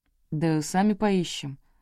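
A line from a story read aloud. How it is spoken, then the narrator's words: Lazy husky voice. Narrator (Russian): с ленивой хрипотцой в голосе ответил Игнат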